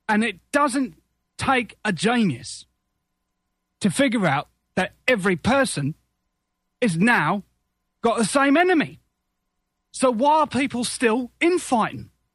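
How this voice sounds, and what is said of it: Drunken London Cockney accent. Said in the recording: “that was a drunk London Cockney ... that drunken London Cockney accent”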